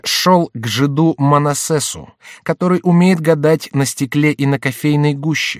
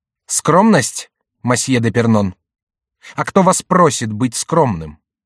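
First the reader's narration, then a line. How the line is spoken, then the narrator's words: Stern. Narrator (Russian): Герцог Анжуйский сказал строго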